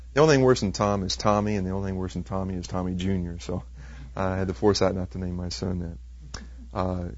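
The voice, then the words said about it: Slight Texas twang. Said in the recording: “I'm from Texas, so if you hear a bit of a twang now and then”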